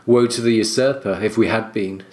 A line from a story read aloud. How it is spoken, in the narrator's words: said Sir Oswell